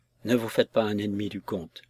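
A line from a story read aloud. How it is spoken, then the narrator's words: Low voice. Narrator (French): lui dis-je à voix basse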